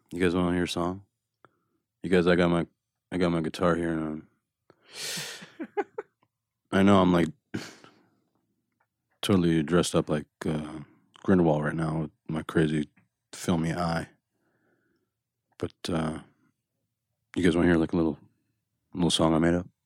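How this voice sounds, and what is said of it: Quiet Johnny Depp impression. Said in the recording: “my impression of Johnny ... Super quiet”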